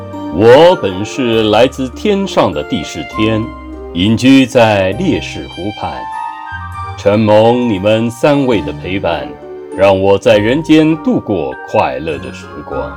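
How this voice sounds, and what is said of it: Loud, resonant old man's voice. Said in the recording (Chinese): “本来年老虚弱的老爷爷站了起来，用洪亮的声音说”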